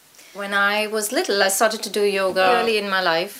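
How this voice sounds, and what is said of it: Indian accent. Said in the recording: “as you can hear from my accent, I grew up in India”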